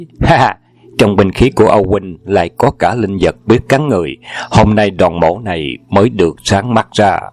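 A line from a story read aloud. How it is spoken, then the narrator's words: Loud laughter. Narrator (Vietnamese): Đoàn Hoàng Gia cười lớn và nói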